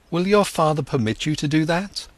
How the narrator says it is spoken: he exclaimed

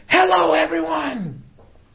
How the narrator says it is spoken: Oprah screaming

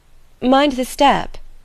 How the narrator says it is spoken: cried Edna

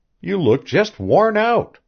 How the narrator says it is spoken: she cried cheerily

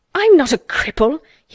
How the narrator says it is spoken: he cried out furiously

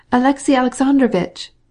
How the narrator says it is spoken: cried the Princess Betsy

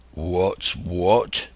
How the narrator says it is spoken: repeated one of the buccaneers in a deep growl

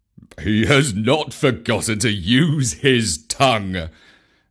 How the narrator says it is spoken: said Baloo with a chuckle of pride

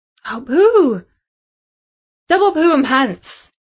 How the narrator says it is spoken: exclaimed Samantha, because that news just about rounded off the worst Friday ever for her

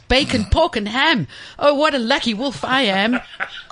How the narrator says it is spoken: he shouted

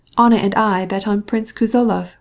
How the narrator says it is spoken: replied Betsy

